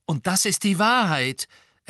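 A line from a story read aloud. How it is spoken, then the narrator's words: Loud reply. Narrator (German): erwiderte Harry laut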